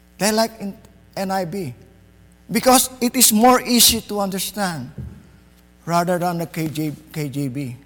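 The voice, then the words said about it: Filipino-accented English. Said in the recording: “I'm a Filipino. ... My accent is different.”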